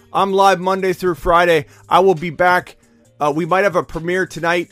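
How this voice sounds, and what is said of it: Hoarse, strained voice. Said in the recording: “My voice is shot.”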